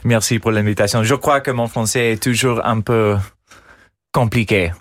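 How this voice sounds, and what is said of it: American accent speaking French. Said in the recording (French): “vous gardez absolument cet accent euh, américain”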